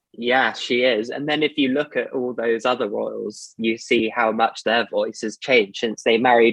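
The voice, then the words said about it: Posh British English accent. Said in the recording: “posh or are you not posh? ... you can tell like a posh person by their accent ... It's the Queen's English”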